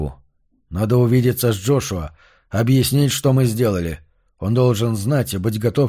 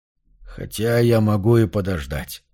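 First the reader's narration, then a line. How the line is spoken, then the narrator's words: Muttered under breath. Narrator (Russian): пробормотал себе под нос Марш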